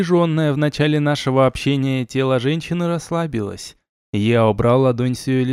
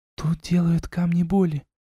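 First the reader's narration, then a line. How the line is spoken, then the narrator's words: Whisper. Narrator (Russian): шепнула женщина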